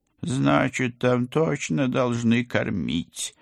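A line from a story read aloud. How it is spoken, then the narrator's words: Gloomy conclusion. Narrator (Russian): мрачно заключил кот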